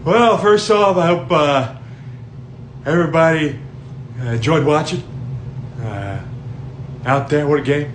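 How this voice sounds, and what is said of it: Impression of Jim Harbaugh. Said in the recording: “He does like impressions. He does a good Chris Collinsworth ... The one thing about Jim Harbaugh ... this kid does an impression.”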